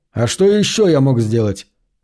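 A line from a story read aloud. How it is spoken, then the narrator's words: Snapping retort. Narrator (Russian): огрызнулся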